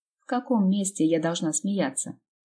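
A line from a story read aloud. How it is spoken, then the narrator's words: Grumbled reply. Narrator (Russian): пробурчала в ответ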